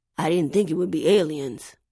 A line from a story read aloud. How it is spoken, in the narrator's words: he mumbled